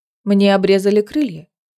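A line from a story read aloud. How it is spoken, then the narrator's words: Calm woman explaining. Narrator (Russian): спокойно пояснила женщина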